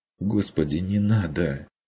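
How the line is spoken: Tearful whispered plea. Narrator (Russian): плачущим шепотом попросила Мария

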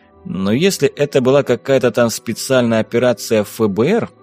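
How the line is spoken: Dry, suppressed anger. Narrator (Russian): сухо поинтересовался Саймон, чувствуя, как начинает медленно закипать

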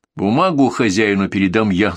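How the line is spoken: Plain. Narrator (Russian): сказал Петр

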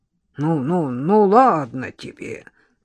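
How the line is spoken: Touched gruff grumble. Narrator (Russian): проворчал дядь Федя, явно тронутый таким искренним проявлением благодарности

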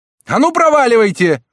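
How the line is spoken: Shouted. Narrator (Russian): закричал он уже прямо в окно напротив

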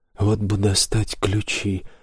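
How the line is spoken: Sighing. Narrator (Russian): вздохнул Саймон

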